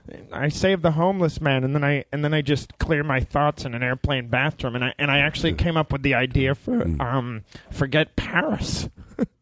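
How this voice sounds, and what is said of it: Imitates another person's voice. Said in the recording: “it's the worst impression.”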